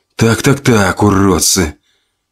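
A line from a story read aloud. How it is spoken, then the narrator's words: Whispered with slight smile. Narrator (Russian): прошептал Максим с легкой улыбкой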